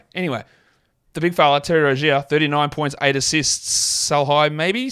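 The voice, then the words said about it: Non-American English accent. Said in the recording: “His nickname makes zero sense in my accent because we don't say those words anything remotely the same ... I know you guys say them the same over in America”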